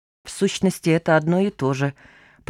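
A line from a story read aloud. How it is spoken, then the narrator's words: Muttered. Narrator (Russian): пробормотала кисонька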